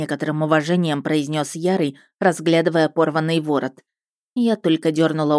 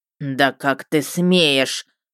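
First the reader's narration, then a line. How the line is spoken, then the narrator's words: Dragon's hiss. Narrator (Russian): прошипел дракон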